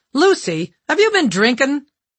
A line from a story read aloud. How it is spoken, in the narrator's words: the director said sharply